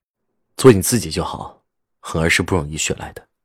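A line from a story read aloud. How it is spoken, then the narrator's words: Cold. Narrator (Chinese): 冷冷说着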